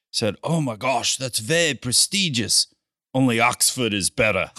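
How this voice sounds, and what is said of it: Put-on British accent. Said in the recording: “in his British accent”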